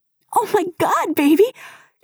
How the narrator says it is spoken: shrieks

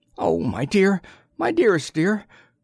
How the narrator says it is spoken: Choresus, who had laughed in battle, was sobbing on his breast

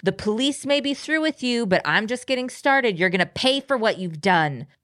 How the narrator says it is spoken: she keeps shouting

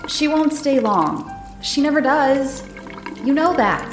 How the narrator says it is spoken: He called out

